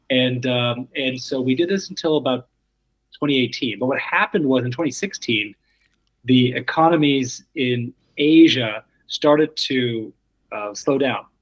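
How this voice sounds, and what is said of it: American accent. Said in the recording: “my portfolio was the US portfolio, as you can tell from my accent”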